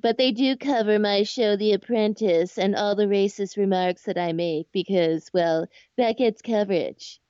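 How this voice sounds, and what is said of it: Imitates another person's voice. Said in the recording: “accent ... who can play Donald Trump”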